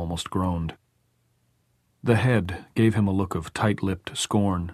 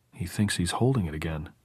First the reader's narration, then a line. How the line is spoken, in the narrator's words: Clay whispered, fascinated